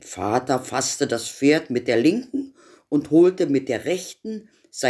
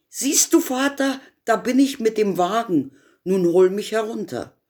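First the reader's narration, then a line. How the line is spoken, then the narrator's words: Called out. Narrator (German): rief er ihm zu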